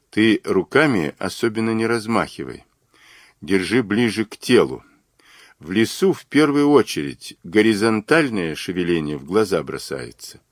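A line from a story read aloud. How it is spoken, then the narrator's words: Quiet order. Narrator (Russian): Мазур тихо приказал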